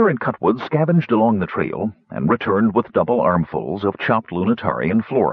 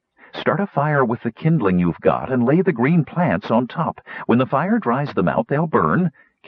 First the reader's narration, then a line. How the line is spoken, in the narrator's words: Kittyara said